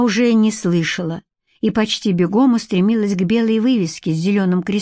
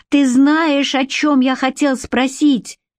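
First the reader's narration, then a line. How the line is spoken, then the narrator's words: Shouting after someone. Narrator (Russian): прокричал вдогонку Валентин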